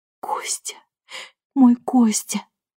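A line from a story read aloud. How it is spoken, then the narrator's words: Mutter. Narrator (Russian): пробормотала Валентина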